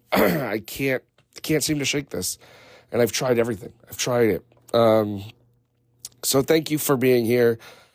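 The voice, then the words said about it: Unwell, strained-sounding voice. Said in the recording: “apologize for my voice.”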